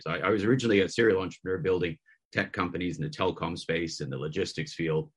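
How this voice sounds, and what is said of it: Canadian accent. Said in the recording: “as you can hear, it's a Canadian accent.”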